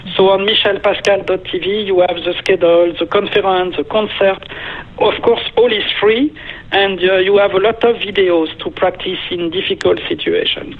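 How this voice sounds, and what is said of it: French accent. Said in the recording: “French accent”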